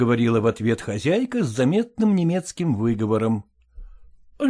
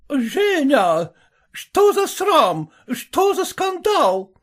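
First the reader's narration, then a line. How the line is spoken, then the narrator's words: Shouting. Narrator (Russian): закричала она на все еще лежащую на полу Аннушку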